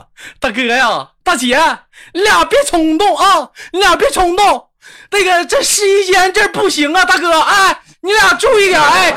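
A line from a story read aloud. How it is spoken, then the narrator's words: Loud shouting. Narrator (Chinese): 导购小姐高声的呐喊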